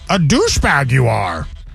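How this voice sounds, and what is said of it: Yoda impression. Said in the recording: “Even Yoda was like ... I'm not the best Yoda impression”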